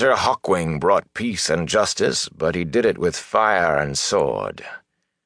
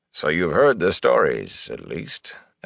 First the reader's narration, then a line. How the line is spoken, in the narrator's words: Elias chuckled, a dry sound